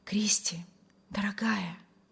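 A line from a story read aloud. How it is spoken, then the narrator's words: Rapturous whisper. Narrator (Russian): восторженно шептал Вильям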